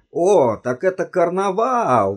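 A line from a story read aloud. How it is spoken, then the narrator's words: Exclamation. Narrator (Russian): воскликнул он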